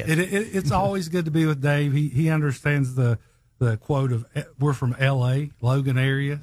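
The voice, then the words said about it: Strong Southern American accent. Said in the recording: “you got one crazy Southern accent”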